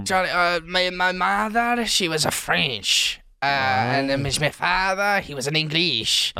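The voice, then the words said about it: Italian accent. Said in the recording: “so you've got an Italian accent”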